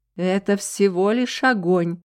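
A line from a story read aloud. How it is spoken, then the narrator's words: Artless laughing woman. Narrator (Russian): простодушно смеялась женщина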